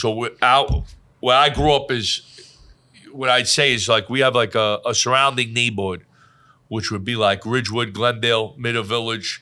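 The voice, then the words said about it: New York, Brooklyn-style accent. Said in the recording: “A lot of people try to figure out where I'm from all the time. Like, they'll be like, right. He's from Bensonhurst. He's from Staten Island because my accent. ... The way I talk.”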